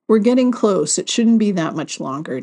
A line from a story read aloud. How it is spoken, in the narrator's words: Nathan said